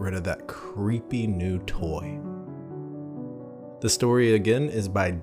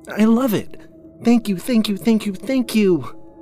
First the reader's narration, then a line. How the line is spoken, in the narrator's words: Cindy exclaimed